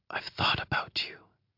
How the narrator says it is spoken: she whispers

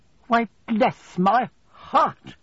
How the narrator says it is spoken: exclaimed Miss Betsy

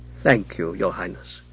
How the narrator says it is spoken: said Alfred gravely

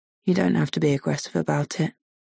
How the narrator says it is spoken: he says grimly

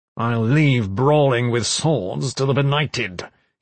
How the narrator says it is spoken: he snarled

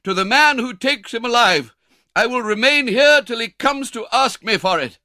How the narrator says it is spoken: cried an old gentleman

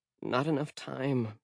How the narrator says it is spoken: she muttered

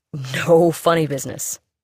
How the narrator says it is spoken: said with a chuckle

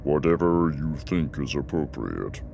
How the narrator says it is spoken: he said, his voice stiff, both in reality and through the translator

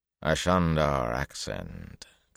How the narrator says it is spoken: Kareed said in a flat voice

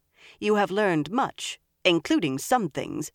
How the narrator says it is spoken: she added sharply

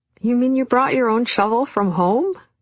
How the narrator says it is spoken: laughed in friendly surprise and delight

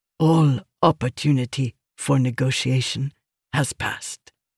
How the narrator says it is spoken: Nikli said softly

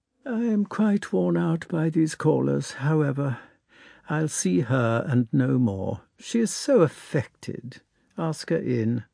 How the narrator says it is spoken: she said to the footman in a sad voice

